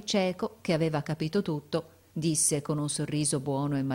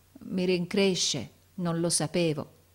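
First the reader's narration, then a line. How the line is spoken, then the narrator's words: Stammered. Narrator (Italian): balbettò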